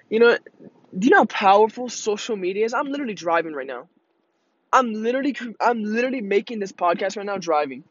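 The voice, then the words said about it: Excited, energetic speech. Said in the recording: “I sound so excited.”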